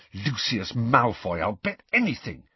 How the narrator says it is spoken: said Harry in a low, furious voice

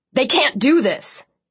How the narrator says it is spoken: Zach shouted over the chatter buzzing around us

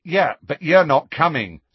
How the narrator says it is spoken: said Ron angrily

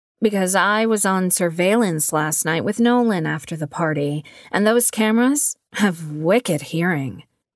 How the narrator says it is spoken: Addie chuckled

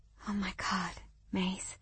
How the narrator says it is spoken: I murmured in disbelief

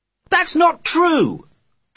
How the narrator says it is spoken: Johnny shouted

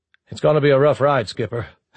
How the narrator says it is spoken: Hathaway said flatly

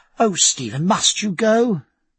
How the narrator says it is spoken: cried Sophie

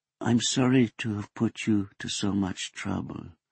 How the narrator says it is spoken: Nakata murmured vaguely

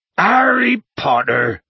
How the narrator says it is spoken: bellowed Hagrid

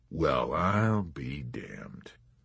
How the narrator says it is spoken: mumbled General Dreidel

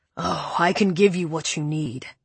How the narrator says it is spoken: Preppy growled

